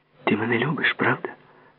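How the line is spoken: Muttered. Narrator (Ukrainian): пробурмотіла

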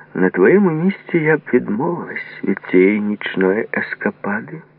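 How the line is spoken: Calm advice. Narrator (Ukrainian): порадила спокійно

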